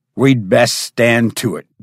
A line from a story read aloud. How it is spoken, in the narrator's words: growled the Cimmerian